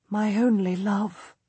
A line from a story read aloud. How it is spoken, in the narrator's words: I whisper to her